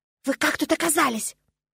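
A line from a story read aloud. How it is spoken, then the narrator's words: Indignant loud whisper. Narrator (Russian): возмутилась громким шепотом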